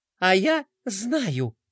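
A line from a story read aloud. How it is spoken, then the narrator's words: Cheerful announcement. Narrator (Russian): бодро объявила Пинки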